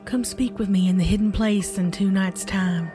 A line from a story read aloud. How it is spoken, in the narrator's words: her granny's voice whisper